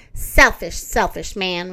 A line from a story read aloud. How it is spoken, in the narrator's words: Raggedy Ann laughed